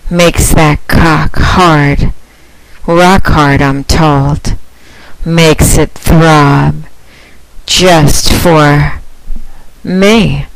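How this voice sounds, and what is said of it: Sultry, seductive voice. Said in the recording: “my sexy voice”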